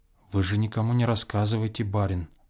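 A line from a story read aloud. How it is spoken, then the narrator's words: Sudden whisper. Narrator (Russian): прибавила она вдруг шепотом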